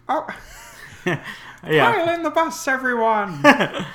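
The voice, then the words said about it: Imitates a cartoon teacher's voice. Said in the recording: “a little Frizzle action ... Lily Tomlin's voice is great ... me constantly trying to do her voice ... kind of Betty White”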